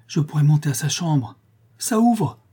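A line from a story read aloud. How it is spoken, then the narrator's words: Joyful exclamation. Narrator (French): s'écria avec joie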